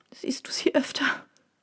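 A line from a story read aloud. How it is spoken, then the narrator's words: Sobbing. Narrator (German): schluchzte sie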